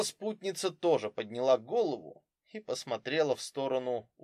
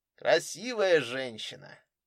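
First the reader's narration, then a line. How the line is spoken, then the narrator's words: Lazy male voice. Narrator (Russian): мужчина лениво сказал по-русски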